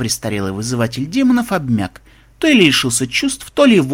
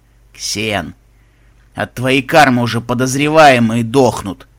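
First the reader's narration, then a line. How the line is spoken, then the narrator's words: Angry remark. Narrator (Russian): Сердито заметил Бонзай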